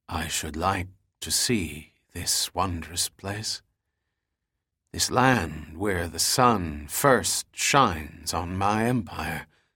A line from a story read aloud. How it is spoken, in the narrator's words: Kublai finally whispered dreamily